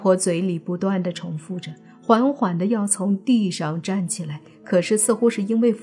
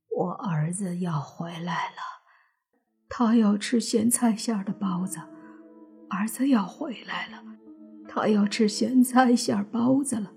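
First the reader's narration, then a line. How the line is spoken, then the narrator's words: Dull, vacant muttering. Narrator (Chinese): 尽管还是很木讷呆滞，但是口里却嘀咕道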